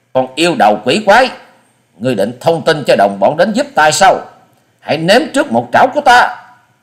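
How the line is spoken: Harsh growling shout. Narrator (Vietnamese): Quái nhân gằn giọng quát lên

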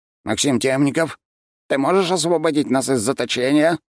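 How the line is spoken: Loud question. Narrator (Russian): громко спросил Демидилик

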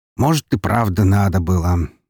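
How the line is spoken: Stranger's amused snort. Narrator (Russian): хмыкнул незнакомец

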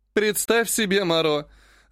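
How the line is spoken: Laughing to tears. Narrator (Russian): захохотала, утирая слезы

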